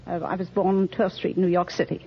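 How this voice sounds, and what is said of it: Slight English accent. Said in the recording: “You have a charming accent there ... Touch of English”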